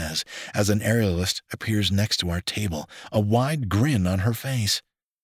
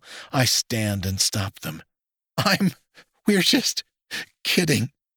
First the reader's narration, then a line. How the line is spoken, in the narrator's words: I sputter as I try to catch my breath